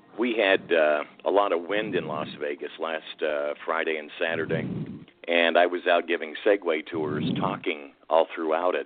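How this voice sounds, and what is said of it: Weak voice. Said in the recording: “my voice is a little weak. I've been sick for like 2 or 3 days ... I woke up Sunday with quite a bad sore throat”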